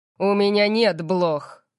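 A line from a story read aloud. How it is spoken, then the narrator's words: Growled. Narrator (Russian): прорычал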